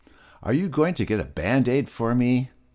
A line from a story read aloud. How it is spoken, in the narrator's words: shouted Peter